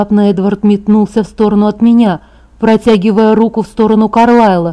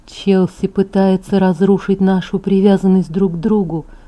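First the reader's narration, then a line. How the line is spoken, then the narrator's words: Whisper. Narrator (Russian): прошептал Эдвард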